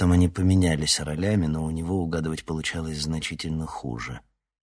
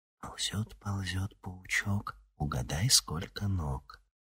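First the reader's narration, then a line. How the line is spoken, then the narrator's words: Whispered chant. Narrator (Russian): приговаривая шепотом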